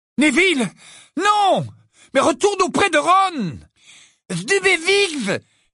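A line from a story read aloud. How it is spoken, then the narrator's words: Exclaiming. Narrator (French): s'écria Neville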